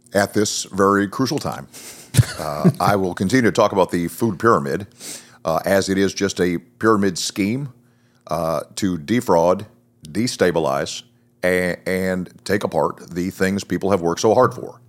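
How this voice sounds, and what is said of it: Barack Obama impression. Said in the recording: “your Obama impression. It's pretty good. ... See? That's perfect. Awesome. Perfect.”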